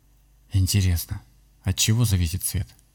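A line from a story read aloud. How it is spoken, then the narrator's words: Whisper. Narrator (Russian): прошептал он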